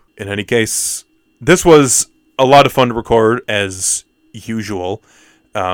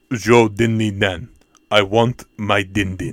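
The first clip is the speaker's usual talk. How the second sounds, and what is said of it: Put-on Russian accent. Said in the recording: “talking in a Russian accent”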